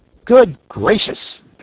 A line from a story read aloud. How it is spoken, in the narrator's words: exclaimed Button Bright